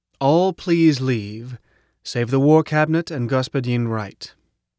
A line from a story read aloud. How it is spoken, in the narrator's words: Prof said firmly